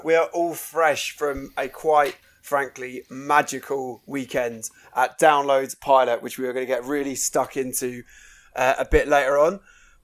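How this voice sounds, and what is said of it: Hoarse, damaged voice. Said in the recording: “My voice is still shot to shit. I was hoping it'd be better by today”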